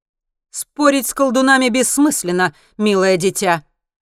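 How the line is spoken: Loud statement. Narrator (Russian): громко произносит чародейка

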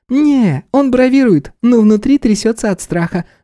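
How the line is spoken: Laughing. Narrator (Russian): рассмеялась Стелла

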